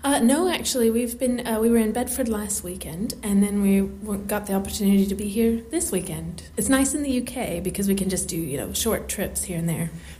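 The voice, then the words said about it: Mixed American and British accent. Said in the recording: “I'm originally from Tennessee, but I've been here for 8 years, so my accent's really weird ... It's a bit of a mix of everything”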